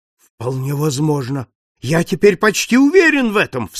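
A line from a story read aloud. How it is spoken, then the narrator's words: Sudden exclamation. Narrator (Russian): вскрикнул хозяин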